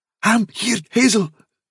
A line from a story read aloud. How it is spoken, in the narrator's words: said Dandelion, in a kind of choking gasp